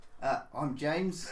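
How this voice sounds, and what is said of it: Put-on Australian accent. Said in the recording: “My best Australian accent”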